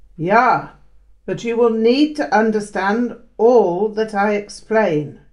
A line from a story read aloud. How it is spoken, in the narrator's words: he barked